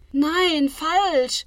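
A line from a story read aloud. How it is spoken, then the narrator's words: Agitated scream. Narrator (German): schreit Lilly erregt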